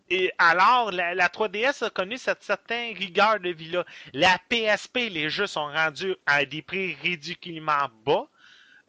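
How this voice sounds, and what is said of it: Québécois French accent. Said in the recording (French): “mon accent québécois”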